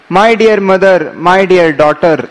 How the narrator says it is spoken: tears poured from his eyes again and again, as he cried

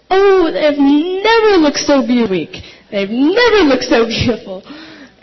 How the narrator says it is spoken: Dina and Jimuna would always exclaim

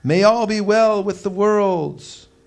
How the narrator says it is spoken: the gods themselves became fearful and cried out

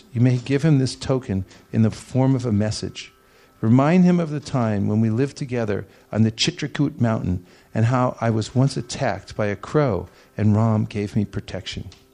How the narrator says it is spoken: Sita replied to him in a choked voice, choked with tears

